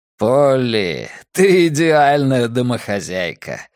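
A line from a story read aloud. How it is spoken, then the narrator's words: Laughing. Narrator (Russian): рассмеялся Филипп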